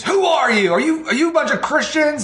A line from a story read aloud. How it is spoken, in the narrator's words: this younger lady screams